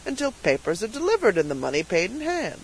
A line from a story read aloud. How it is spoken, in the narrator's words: said the purchaser with a chuckle